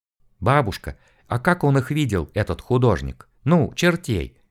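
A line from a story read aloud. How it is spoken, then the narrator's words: Quiet curious question. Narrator (Russian): Тихонько оттаскивая бабушку в коридор подальше от стычки, поинтересовалась я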